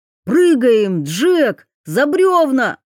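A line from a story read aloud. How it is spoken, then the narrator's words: Shouted after cursing. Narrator (Russian): Гоглидзе, выругавшись, крикнул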